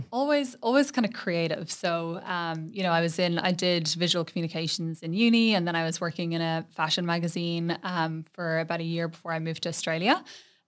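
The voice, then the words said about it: Mild Irish accent. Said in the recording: “Ireland ... accent ... It's actually not that strong, but I love the Irish accent.”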